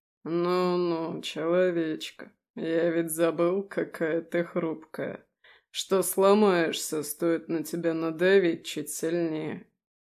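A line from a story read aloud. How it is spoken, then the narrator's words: Purring, demon. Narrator (Russian): мурлыкал демон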